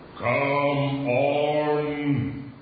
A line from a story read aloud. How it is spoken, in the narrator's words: he roared